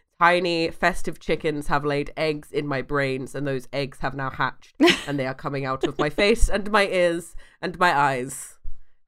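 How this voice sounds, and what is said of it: Sick, congested voice. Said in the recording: “as you can tell by my voice and my lack of brain... the first of the Christmas winter illnesses has come”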